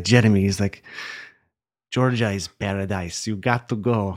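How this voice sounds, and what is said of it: Put-on Lebanese accent, exaggerated. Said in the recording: “I don't know why I'm using a Lebanese accent ... terrible ... my default foreign accent”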